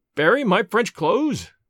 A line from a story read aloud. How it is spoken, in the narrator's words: cried